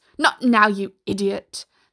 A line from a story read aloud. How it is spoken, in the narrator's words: the sheriff snapped irritably